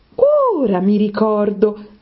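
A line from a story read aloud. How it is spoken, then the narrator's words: Exclaimed. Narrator (Italian): esclamò Alice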